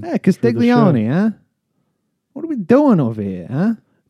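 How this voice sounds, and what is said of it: Put-on Italian accent. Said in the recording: “I want to hear the Italian accent.”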